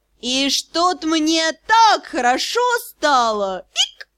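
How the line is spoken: Drunken giggle. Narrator (Russian): туша, пьяно хихикая

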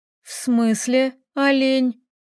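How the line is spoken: Lazy question. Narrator (Russian): лениво спрашивала Таисия

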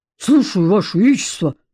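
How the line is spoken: General's bark. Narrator (Russian): рявкнул генерал

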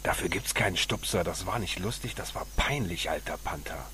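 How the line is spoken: Hissing. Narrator (German): Pancho ... fauchte

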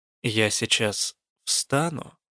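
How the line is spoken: Slow, calm warning. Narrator (Russian): предупредила я медленно и спокойно, чтобы он не запаниковал

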